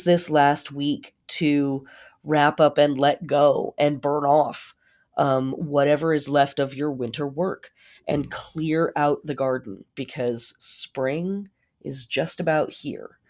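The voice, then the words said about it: Very hoarse voice. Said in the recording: “my super hoarse voice ... I might be sucking on cough drops the entire time”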